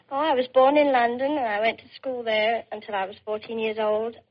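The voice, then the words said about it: Slight English accent. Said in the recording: “You have a slight accent. ... I'm English.”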